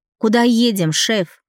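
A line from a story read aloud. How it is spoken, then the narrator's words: Shouted. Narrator (Russian): прокричала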